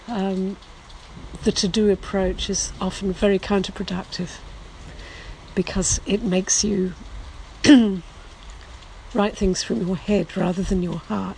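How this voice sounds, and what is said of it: Hoarse, sore-throated voice. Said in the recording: “sorry about my voice. I've had quite a sore throat today”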